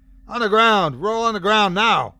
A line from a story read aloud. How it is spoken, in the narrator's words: I shouted over the piercing echo of his agony